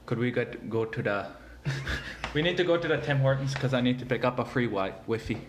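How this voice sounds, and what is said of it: Put-on Hutterite accent. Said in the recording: “let's hear ... best Hutterite accent”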